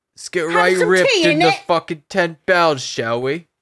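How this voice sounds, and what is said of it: Fake British accent. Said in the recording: “put a fake British accent ... By order of the Peaky Blinders ... that was the only thing I was going for”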